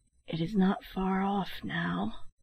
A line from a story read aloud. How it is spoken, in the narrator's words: His voice sank to a whisper as he added